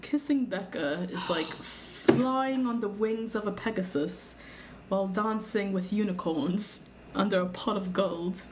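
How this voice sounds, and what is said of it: Poor put-on British accent. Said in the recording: “That was my horrible British accent.”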